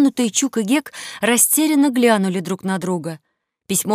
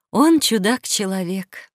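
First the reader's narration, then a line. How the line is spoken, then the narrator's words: Mother sighing. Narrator (Russian): вздохнула мать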